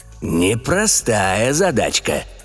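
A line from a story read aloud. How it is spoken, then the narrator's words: Purred. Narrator (Russian): промурлыкал Евгений Степанович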